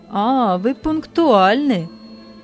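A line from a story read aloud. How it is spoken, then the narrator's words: Mocking husband. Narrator (Russian): сказал муж насмешливо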